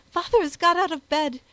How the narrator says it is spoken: she gasped out

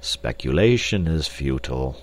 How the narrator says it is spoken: said Professor Porter sadly

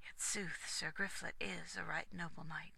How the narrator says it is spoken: Aglovale sighed and muttered

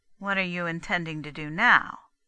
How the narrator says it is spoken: Daisy asked flatly

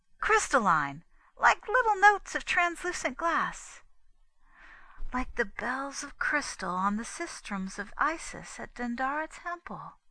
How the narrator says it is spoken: added, half dreamily

